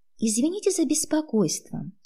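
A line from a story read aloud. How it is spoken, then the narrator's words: Sweet meek babbling. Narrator (Russian): пролепетала ласковым голосом, решив прикинуться безвредной тихоней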